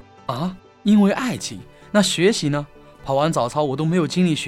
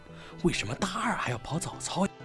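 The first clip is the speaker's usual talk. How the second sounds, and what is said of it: Whispered, quiet question. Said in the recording (Chinese): “小声说”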